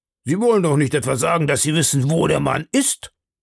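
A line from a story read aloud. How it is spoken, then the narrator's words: Startled exclamation. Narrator (German): Ich fuhr in die Höhe und rief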